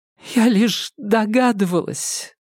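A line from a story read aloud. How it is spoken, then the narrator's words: Sobbing. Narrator (Russian): Шевчук всхлипнула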